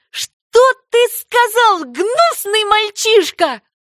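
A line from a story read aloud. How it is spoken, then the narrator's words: Exclaiming. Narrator (Russian): воскликнула она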